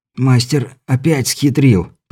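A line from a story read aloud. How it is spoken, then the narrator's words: Hoarse rasp. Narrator (Russian): прохрипел Беляев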